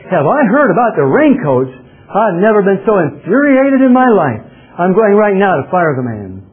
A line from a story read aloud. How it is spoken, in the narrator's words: The owner yelled back